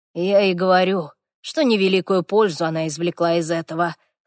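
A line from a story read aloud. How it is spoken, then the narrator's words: Snorting. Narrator (Russian): хмыкнул Хорвик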